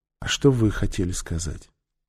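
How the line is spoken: Very quiet, barely audible. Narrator (Russian): ее голос звучал так тихо, что Нефер едва расслышал, когда она в свою очередь спросила

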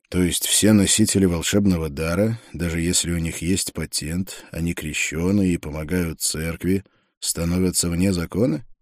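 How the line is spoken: Quiet speech. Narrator (Russian): негромко произнес я

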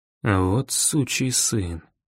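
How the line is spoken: Quiet repetition. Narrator (Russian): повторил тихо

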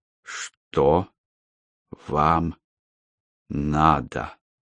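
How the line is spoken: Slow, syllable by syllable. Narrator (Russian): Медленно, чуть ли не по слогам, спросил Дмитрий

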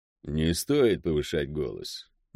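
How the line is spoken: Soft request. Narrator (Russian): мягко попросил Шреф

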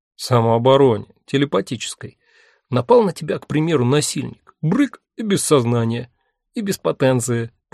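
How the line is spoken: Embarrassed giggle. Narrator (Russian): парень смущенно хихикнул

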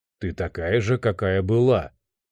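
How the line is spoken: Hoarse. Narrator (Russian): хрипло сказал Лео

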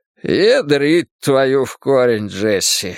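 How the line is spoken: Breathed out. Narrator (Russian): выдохнул Маккена

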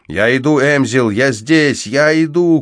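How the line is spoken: Shouted through wood. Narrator (Russian): крикнул я сквозь толщу дерева

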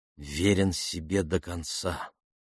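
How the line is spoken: Said quietly. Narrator (Russian): тихо сказала Марго

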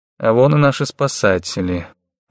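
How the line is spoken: Muttered. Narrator (Russian): буркнул Лученко

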